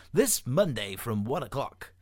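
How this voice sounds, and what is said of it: Put-on radio announcer voice. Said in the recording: “in a radio voice”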